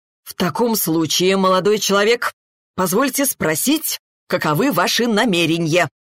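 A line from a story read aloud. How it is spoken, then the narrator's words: Loud, pompous question. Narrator (Russian): громко и с пафосом вопросил отец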